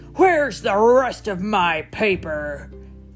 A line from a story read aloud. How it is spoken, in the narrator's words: thundered an angry, storming into the living room